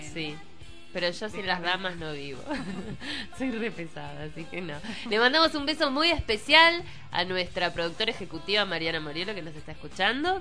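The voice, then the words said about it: Congested, nasal voice from a cold. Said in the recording (Spanish): “Se te oye resfriada ... Gangosa ... voz de ultratumba bastante particular”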